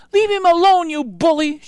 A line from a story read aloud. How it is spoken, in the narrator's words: she cried